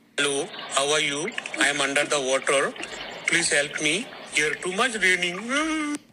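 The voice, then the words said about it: Comic accented creature voice. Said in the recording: “that's the voice of the mythosaur ... the true accent of the mythos”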